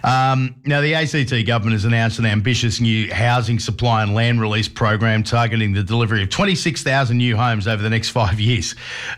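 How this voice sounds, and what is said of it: Slightly raspy, recovering voice. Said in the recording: “My voice is somewhat coming back, but it's still a bit raspy.”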